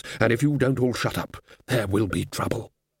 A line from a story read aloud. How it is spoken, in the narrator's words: said Ridcully in a low and level voice